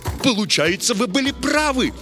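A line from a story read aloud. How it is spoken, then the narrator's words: Delighted exclamation. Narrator (Russian): с восторгом воскликнул Чижевский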